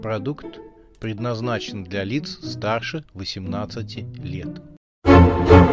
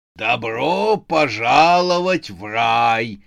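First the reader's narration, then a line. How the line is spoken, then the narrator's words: Growling proclamation. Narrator (Russian): вещал рычащий голос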